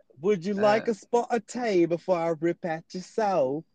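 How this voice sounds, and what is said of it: Exaggerated put-on British accent. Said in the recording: “British accent ... Oh, a bit much ... Oh, that was good. ... That was pretty fucking good. All you gotta do is just take off all the vowels when you talk.”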